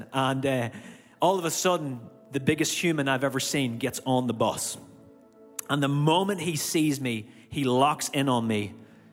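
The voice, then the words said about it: Irish accent. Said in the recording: “a guy with an Irish accent ... with my accent”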